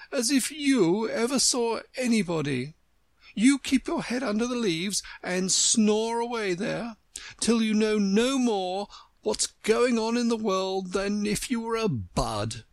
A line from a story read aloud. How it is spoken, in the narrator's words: cried the Tiger-lily